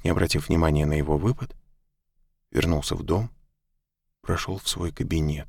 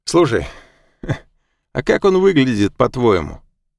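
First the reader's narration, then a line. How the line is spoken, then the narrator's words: Sudden laugh. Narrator (Russian): вдруг засмеялся Вилли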